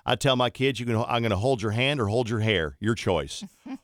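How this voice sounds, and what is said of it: Imitated Southern accent. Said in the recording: “she has a Southern accent.”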